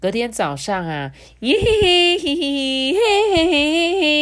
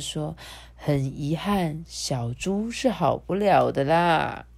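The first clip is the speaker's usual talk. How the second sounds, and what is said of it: Quiet, soft-spoken voice. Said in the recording (Chinese): “小声”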